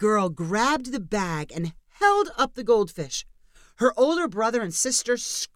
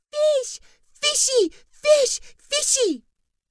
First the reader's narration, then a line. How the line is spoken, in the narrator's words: she shrieked